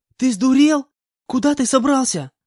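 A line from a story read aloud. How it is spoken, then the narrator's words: Shouting at someone. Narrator (Russian): Закричала на меня Нага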